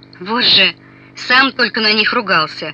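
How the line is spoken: Short laugh. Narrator (Russian): хохотнул Степан

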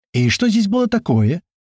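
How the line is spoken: Displeased exclamation. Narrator (Russian): Недовольно воскликнула Матрона

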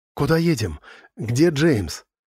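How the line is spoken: Sleepy, cracking voice. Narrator (Russian): ломающимся сонным голосом вопросила Сью

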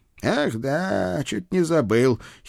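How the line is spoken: Guard giggling. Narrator (Russian): хихикнул охранник

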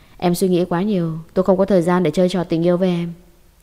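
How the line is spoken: Cold laugh. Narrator (Vietnamese): cười lạnh lùng

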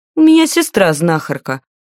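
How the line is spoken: Sharp snapping retort. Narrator (Russian): колко огрызнулась

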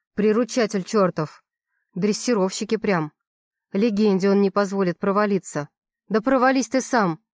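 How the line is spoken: Angry suppressed whisper. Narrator (Russian): Шепчу зло, хотя хочется кричать

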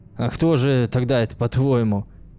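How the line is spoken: Angry question. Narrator (Russian): сердито спросил у нее Борис

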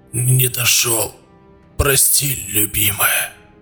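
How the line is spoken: Dying whisper. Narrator (Russian): смог прошептать перед смертью

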